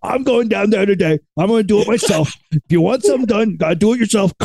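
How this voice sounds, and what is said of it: Darth Vader impression voice. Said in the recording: “That's my Darth Vader impression today.”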